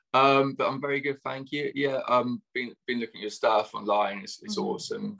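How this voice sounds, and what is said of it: Strong British accent. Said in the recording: “He is a professional dating coach from the UK, so get ready for his accent ... the British accent probably sounding really strong to you now”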